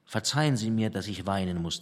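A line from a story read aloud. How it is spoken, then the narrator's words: Plain. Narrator (German): sagte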